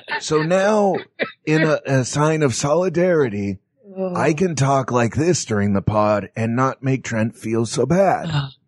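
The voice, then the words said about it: Strained, pinched voice from pressed throat. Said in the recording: “to do an impersonation of ... this week, what you do is you take your forefinger and your thumb, put them about 1 inch apart. Now, if you're a man, you'll want to locate those right above your Adam's apple and press in.”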